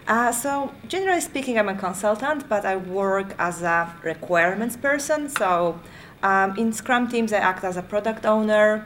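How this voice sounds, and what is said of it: Polish accent. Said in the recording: “I could tell by your accent that you're not from Sydney, Australia ... probably you can guess by my accent that I'm not British. Originally I'm from Poland”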